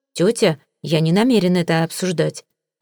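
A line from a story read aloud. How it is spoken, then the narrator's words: Cold, curt. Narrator (Russian): холодно отрезал я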